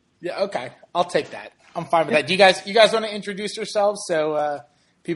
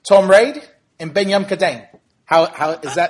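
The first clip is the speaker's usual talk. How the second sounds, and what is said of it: American attempting Australian accent. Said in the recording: “Is that a terrible accent? ... That was pretty good. It was a little crocodile D, but it was good. ... Americans trying Australian accents, which is, it's good, but it's not brilliant.”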